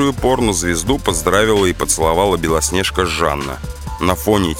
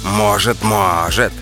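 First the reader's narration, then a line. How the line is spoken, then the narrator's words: Malicious smiling tone. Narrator (Russian): злобно улыбнулась Крыжовникова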